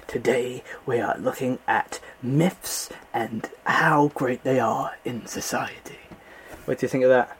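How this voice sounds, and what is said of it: Nature documentary narrator impression. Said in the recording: “my David Attenborough impression ... a really, really good David Attenborough impression. Probably the best I've ever heard.”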